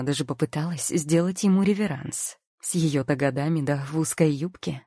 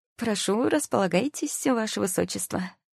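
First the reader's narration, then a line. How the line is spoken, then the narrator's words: Snide greeting. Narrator (Russian): Ехидным тоном поприветствовала его я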